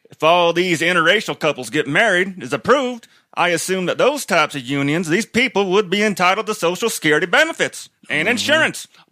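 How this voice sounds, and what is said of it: Exaggerated put-on accent. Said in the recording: “I was just going to do it in a fucked up accent this time too. ... Did the accent make it better?”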